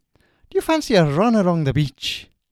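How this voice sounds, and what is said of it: Irish accent, Oscar Wilde impression. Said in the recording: “doing the voice of an Oscar ... That is an Irish accent ... Oscar Wilde is correct.”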